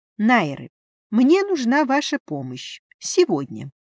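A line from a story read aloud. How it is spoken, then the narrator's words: Decisive declaration. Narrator (Russian): решительным тоном заявила я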